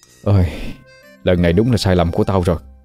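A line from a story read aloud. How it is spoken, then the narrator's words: Sighing regret. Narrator (Vietnamese): Thiên thở dài nói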